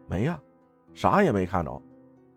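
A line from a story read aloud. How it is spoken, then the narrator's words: Doubtful. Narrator (Chinese): 二娘心里也犯嘀咕，说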